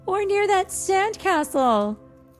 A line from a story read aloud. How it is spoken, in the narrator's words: Aquata shouted